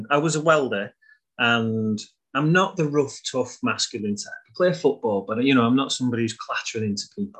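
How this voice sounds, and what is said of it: Northern English accent. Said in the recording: “My accent probably makes me sound like I'm a northern football hooligan ... I just sound like it ... my accent makes me sound like that”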